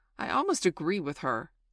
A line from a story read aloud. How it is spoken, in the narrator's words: Wendy snapped